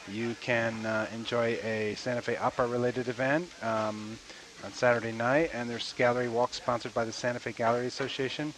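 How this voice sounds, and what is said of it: Congested voice from a cold. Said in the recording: “I'm just recovering from 2 days of a bad cold... that's why my voice is a bit... mounting mountain of Kleenexes”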